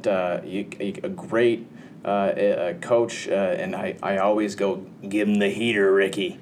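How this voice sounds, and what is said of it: Imitates a movie coach's voice. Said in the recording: “that sounded a lot like Jerry Andrews right there, my impression of Jerry Andrews, but no, that was actually an impression of the coach from Major League”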